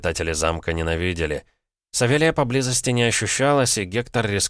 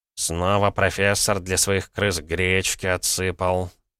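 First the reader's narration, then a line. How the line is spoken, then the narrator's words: Displeased grumble. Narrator (Russian): недовольно проворчал хранитель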